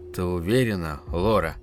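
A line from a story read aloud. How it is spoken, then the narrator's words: Quiet question. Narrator (Russian): тихо спросил отец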